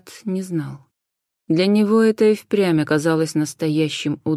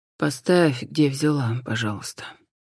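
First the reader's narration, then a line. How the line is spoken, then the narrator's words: Quiet reply. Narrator (Russian): тихо ответил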